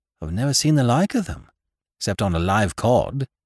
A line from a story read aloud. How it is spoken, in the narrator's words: said Captain Gannington, in an extremely puzzled voice